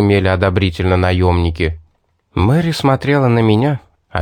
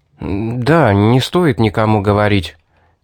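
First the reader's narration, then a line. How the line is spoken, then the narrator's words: Nervous mumble. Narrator (Russian): поеживаясь под ее взглядом, промямлил я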